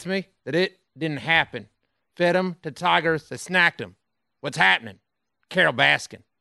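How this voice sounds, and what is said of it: Twangy Joe Exotic impression. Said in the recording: “this isn't even any close to a Joe Exotic. It's my twangy. This is the closest I have to a twang. ... It's actually not bad. ... It's pretty good.”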